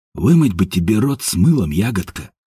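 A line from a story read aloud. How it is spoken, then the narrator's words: Mutter. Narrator (Russian): пробормотал Степан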